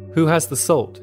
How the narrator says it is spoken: shouted Zinaida Kolmogorova, or Zina

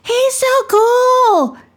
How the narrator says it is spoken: shouted Josh

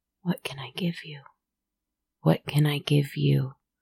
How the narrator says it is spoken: Over and over, I whispered

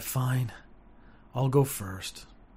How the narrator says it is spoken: sigh

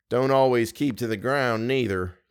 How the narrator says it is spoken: came in Hank's slow, heavy drawl

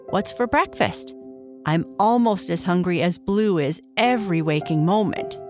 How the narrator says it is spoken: asked Red

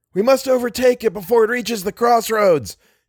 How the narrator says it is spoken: shouted Little

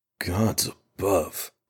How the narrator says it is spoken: Radric breathed, his face ashen and his tone matching it, if a man's tone could be said to have a color

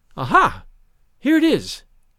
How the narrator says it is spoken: suddenly she exclaimed vivaciously

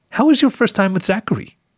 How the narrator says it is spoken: said sweetly

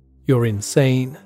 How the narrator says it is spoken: said Jones

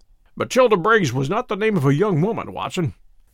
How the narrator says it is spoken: said Holmes, in a reminiscent voice

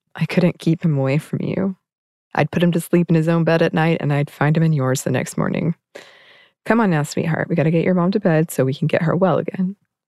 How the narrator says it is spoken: Laughing, Lynn told Tilda

